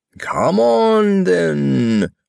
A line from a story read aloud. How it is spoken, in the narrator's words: roared the Queen